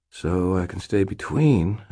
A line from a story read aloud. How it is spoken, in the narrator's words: I said quietly